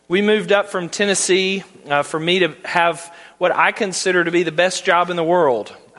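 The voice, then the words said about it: Southern American accent. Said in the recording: “I do not have a Midwestern accent. I have a Southern accent.”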